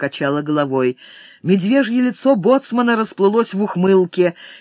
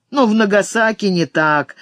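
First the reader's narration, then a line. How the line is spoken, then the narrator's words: Laughing. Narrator (Russian): засмеялся боцман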